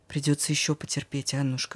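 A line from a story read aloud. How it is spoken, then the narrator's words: Old man whispering. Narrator (Russian): шепнул дед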